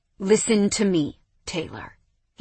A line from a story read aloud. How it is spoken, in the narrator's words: he said, his voice steely